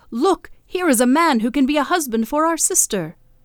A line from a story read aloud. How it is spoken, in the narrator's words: Those living in the crater cried out